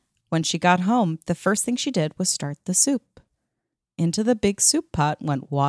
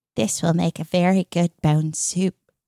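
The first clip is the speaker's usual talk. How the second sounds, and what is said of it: Put-on character voice. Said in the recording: “I tried to do a voice.”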